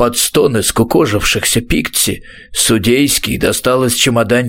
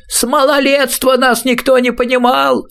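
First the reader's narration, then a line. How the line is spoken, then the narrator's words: Yelling. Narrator (Russian): орал Роб Всякограб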